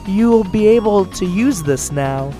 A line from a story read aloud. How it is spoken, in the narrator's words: she said